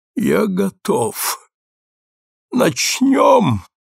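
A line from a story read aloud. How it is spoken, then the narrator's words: Groaning. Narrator (Russian): простонал он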